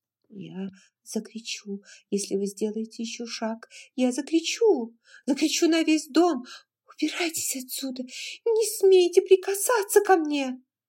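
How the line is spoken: Hoarse hurried whisper. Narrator (Russian): она хрипло, торопливо прошептала

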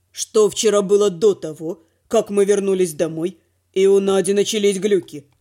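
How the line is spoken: Gloomy question. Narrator (Russian): Мрачно поинтересовался Дима

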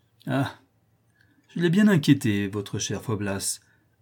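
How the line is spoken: Interrupting with laughter. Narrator (French): interrompit-elle en riant

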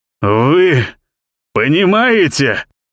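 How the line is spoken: Hoarse, astonished. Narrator (Russian): просипел он, как бы изумляясь собственным словам

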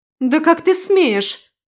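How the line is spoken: Angry shout. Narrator (Russian): выкрикнула женщина, со злостью

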